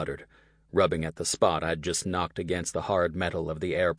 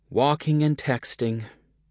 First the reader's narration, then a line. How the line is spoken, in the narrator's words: said with a sigh